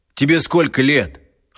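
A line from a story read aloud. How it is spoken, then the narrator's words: Stern. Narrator (Russian): Лёшка сказал строго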